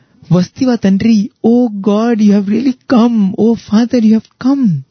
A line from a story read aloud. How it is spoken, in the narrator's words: One elderly aunt, she started exclaiming